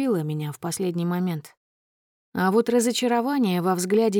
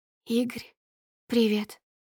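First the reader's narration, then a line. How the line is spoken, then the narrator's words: Husky whisper. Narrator (Russian): хрипловато шепчет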